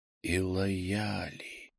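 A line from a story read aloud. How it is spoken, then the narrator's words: Silent inner whisper. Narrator (Russian): Я прошептал мысленно, не шевеля губами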